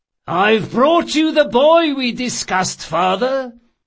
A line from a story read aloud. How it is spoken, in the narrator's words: the thief-maker announced loudly enough for several passers-by to hear him